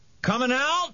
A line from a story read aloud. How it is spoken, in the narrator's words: he hollered to Harvey